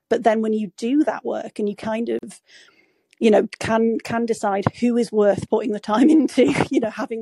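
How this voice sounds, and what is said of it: Yorkshire English accent. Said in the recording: “accent ... I'm from Yorkshire”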